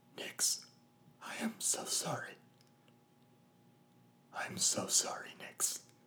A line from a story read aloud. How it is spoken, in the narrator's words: I whispered, voice raspy and halting through the tears